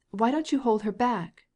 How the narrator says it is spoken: cried Stepan Arkadyevitch

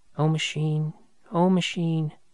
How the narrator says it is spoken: half ashamed, half joyful, she murmured

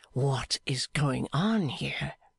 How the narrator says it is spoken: whispered Clennam

